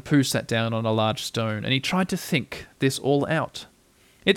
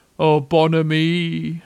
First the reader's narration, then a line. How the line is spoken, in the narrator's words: went on Eeyore gloomily